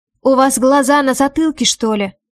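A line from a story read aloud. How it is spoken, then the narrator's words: Angry question. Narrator (Russian): спрашиваю зло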